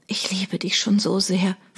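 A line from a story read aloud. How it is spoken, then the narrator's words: Whisper. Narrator (German): flüsterte sie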